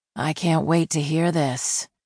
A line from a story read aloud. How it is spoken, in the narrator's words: Ginny muttered dryly